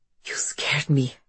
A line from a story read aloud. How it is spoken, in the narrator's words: Halina whispers, her heart racing